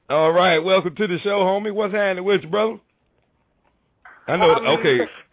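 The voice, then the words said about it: Southern country American accent. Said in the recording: “I'm in Tampa, Florida, so I got a nice country accent”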